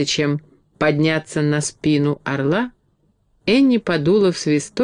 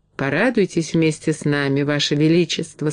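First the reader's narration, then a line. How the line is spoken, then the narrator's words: Plain. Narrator (Russian): сказала Энни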